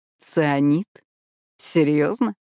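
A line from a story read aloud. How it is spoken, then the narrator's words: Skeptical snort. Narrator (Russian): Он хмыкнул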